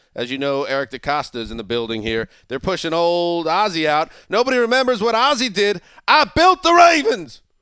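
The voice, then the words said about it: Put-on Southern accent. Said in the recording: “I don't know why I speak with a Southern accent.”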